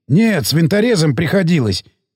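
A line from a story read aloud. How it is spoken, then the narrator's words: Hoarse voice. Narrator (Russian): сиплый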